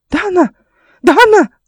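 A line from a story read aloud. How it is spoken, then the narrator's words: Exasperated yell. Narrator (Russian): завопил дядя, и его терпение лопнуло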